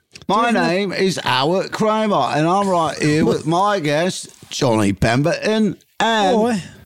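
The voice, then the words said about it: Put-on British accent. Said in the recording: “Say it in a British accent. ... You want it in British? ... do it in British. ... I want it in British.”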